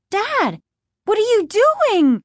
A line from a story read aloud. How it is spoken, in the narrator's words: Margaret cried